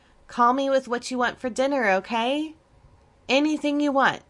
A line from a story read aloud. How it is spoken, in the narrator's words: Tabitha called out